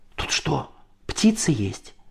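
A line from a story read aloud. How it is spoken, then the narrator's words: Excited whisper. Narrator (Russian): зашептал он возбужденно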